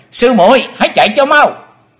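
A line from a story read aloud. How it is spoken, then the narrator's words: Joyful loud shout. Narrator (Vietnamese): U Linh công tử hoan hỷ hét lớn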